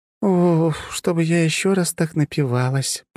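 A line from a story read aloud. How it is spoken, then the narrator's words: Woman groaning. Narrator (Russian): простонала кудрявая блондинка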